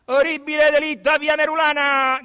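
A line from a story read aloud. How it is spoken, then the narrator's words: Newsboys shouting. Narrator (Italian): gridavano gli strilloni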